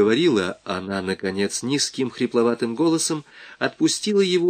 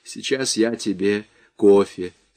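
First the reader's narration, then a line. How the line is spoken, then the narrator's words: Plain, from a distance. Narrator (Russian): сказала она оттуда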